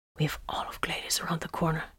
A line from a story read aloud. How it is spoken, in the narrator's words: whispered